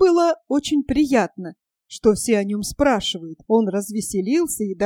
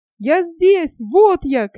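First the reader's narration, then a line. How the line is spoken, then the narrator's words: Shouting back. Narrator (Russian): кричал в ответ Нильс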